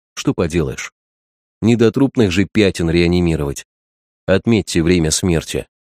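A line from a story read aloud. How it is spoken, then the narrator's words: Quiet. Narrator (Russian): главный врач сказал тихо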